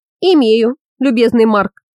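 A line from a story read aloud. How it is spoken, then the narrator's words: Giggling. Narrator (Russian): хихикнул свар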